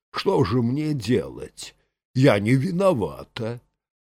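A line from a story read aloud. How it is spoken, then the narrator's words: Lazy sleepy objection. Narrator (Russian): Аглая лениво и нехотя возражала сонным голосом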